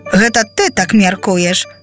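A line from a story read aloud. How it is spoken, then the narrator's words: Smiling. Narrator (Belarusian): усміхнувся Джонас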